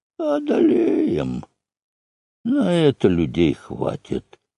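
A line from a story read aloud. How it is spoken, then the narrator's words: Grim hoarse rasp. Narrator (Russian): Один мрачный голос из рядов прохрипел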